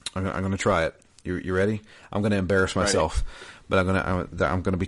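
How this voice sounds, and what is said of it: Usual voice. Nothing is said of it.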